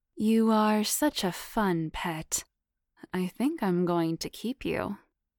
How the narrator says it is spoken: teased sensually, purring every word in that raspy, sensual tone

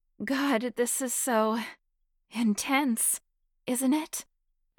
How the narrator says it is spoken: Beth gasped

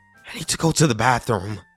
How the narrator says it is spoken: said shakily

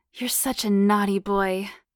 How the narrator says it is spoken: she purred

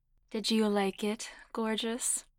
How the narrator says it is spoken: Cassandra purred playfully

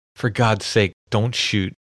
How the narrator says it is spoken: a woman's voice pleading

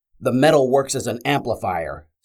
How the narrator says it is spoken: Scar shouted over the screams

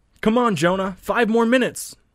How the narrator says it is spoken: the blonde-haired boy shouts

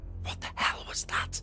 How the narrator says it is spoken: Danny whispered, shocked

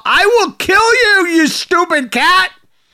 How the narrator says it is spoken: So she then proceeded to shout

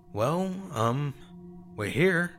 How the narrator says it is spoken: said, twisting my fingers nervously

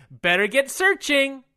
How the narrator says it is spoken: Wyatt says excitedly

